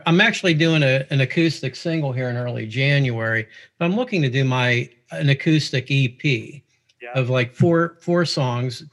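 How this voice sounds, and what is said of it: Pittsburgh accent. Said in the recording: “you could tell from my accent. I'm here originally from Pittsburgh”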